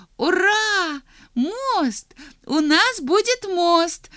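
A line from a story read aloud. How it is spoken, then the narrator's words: Small mouse shouting excitedly. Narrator (Russian): закричала маленькая мышка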